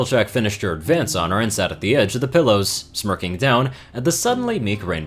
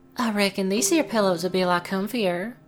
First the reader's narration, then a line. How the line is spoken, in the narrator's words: Applejack purred